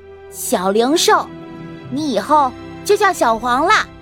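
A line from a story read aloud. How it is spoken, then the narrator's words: Loud announcement. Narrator (Chinese): 大声宣布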